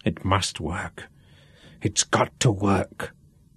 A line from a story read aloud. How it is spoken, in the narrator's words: Duff whispered, as much to himself as to Sean